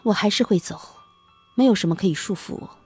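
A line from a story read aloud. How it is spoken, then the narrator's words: Sighing. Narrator (Chinese): 夏晴叹一口气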